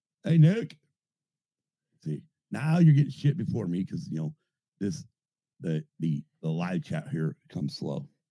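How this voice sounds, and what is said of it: Voice sounds off, rough. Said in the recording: “my voice is all fucked up today. Don't sound right. ... I think it's the fucking allergies.”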